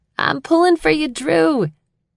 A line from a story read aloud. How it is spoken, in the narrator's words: something comes over me and I yell